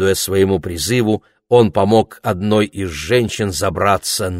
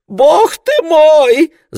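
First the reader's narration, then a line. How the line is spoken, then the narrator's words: Shout. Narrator (Russian): закричал Королевский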